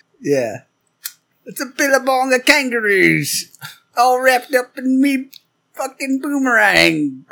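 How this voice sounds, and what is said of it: Unconvincing put-on Australian accent. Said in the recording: “Are you Scottish now? Irish? ... that's my Australian accent ... Your ginger was showing for a second.”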